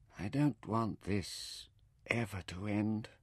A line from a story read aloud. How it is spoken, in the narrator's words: she whispered at last